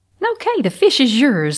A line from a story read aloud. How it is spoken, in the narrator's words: laughed Aunt Lydia